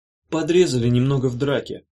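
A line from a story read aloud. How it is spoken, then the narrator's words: Very calm, casual. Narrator (Russian): ответила Малара так спокойно, словно оруженосец был послан в магазин за обезжиренным йогуртом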